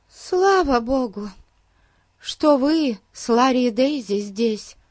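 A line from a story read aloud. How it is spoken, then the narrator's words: Sighing. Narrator (Russian): вздохнула миссис Уильямс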